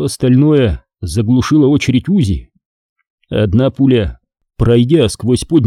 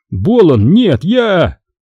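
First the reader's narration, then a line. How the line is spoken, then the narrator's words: Terrified cry. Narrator (Russian): мафиози с ужасом вскрикнул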